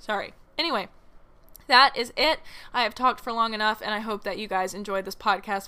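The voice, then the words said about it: Voice giving out, strained. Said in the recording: “my voice is going”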